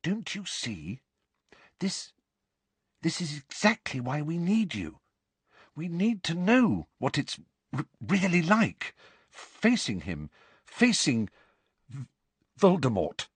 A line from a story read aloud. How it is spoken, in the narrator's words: she said timidly